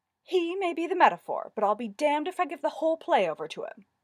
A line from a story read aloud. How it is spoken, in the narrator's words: he said haughtily